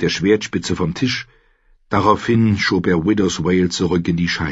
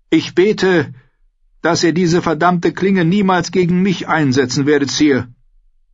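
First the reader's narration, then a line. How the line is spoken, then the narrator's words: Calling out. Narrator (German): Sir Osmond Kettleblack rief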